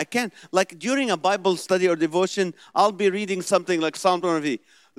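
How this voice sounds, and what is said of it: Heavy Middle Eastern accent. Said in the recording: “being a Middle Eastern, I have an accent. That's this heavy accent”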